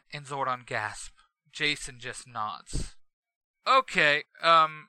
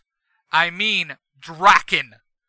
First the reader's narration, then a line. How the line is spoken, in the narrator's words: Jason yells